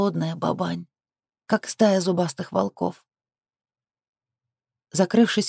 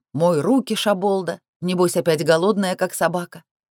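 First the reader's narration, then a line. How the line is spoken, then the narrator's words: Displeased barking shout. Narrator (Russian): недовольный голос гаркнет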